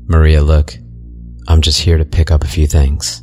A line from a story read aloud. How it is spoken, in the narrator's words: I said